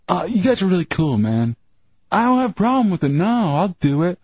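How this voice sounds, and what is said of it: Imitates another person's voice. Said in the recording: “Is that your Chunks impression?”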